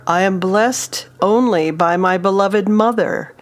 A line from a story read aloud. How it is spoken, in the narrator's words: In frustration, bellowed